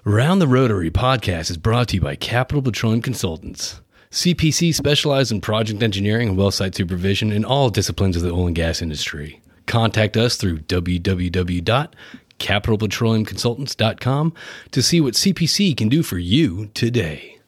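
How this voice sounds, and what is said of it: Polished announcer-style podcast voice. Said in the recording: “in my podcast voice ... I really thought that was like a pre-recorded thing”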